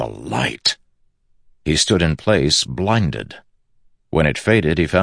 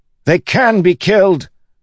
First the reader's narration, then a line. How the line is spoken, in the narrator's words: one of the soldiers yelled nearby